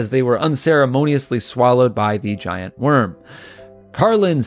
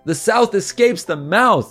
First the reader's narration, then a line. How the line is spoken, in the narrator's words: they yelled as they were horrifically crushed by a tentacle